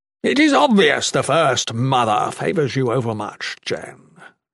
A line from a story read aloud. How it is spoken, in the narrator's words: Shatan observed haughtily